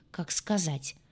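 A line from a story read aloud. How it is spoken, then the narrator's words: Muttered under breath. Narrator (Russian): буркнул себе под нос Толик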